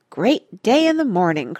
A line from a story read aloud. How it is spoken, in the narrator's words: cried Cuffy